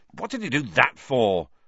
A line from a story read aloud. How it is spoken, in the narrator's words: said Harry, furiously